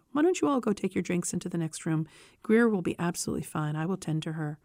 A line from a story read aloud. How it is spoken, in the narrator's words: Faith calmly said